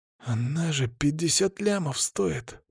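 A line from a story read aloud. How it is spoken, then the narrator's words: Knowing whisper. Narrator (Russian): прошептал он со знанием дела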